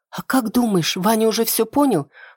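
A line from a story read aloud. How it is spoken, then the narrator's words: Whispered question. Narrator (Russian): Шепотом задаю вопрос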